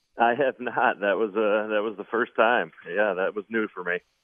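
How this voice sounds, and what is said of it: Classic Buffalo accent. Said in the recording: “You sound like you have the classic Buffalo accent.”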